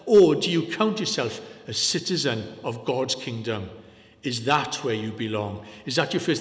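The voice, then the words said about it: Welsh-sounding accent. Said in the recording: “with this accent, you're all fairly convinced I'm Welsh.”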